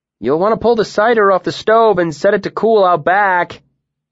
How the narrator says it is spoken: Bast called out to him loudly

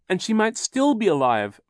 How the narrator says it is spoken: Violet cried

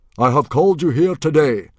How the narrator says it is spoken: boomed Stoic

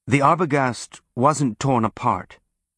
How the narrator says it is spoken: he said

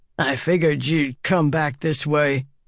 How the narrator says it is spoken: he said, the words slurred by his shriveled lips

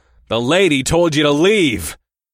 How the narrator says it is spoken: I shouted at the three-headed demon

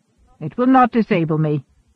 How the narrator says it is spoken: snapped, curbing temper again

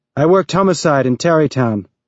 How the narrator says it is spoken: Havelock said

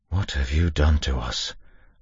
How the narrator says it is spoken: Lorien whispered

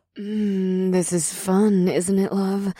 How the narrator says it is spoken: Ada purred

